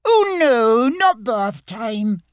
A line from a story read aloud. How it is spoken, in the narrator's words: cried Roo